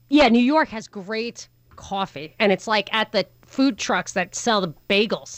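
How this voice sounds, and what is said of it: New York accent. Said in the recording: “How could you not know I'm from New York? It's annoying how from New York I am ... complaints about my accent”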